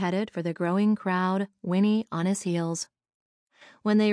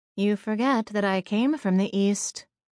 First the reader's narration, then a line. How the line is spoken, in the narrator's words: Rose said dryly